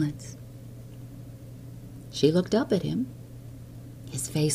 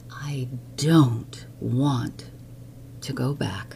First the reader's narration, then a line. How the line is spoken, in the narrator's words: She said slowly